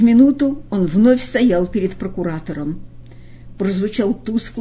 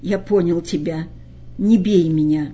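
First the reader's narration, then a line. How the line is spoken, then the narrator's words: Hoarse, catching breath. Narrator (Russian): Он перевел дыхание и ответил хрипло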